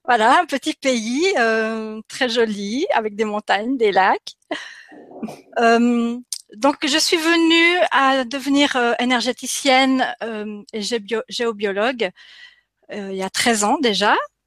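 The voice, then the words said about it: Non-native French accent. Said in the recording (French): “comme ça peut s'entendre à mon accent, je ne suis pas française, ... mais j'habite en Suisse.”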